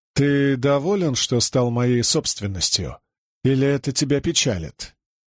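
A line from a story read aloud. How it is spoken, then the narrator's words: Indifferent tone. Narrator (Russian): ответил безразличным тоном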